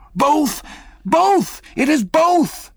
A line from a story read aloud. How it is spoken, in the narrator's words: cried Dagoo again with a joyful shout